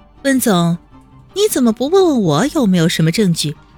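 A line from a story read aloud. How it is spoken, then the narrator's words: Smiling question. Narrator (Chinese): 温之夏笑着问道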